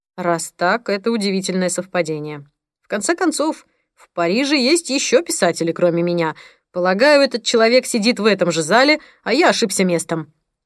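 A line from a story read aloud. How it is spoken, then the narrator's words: Sarcastic. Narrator (Russian): ответил Пол саркастическим тоном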